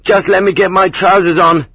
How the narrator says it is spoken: yelled

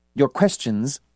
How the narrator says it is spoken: Lubeloft said in a crisp, formal voice

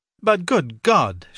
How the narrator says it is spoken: shouted Mark

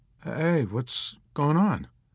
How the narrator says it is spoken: Kid Sampson asked nervously

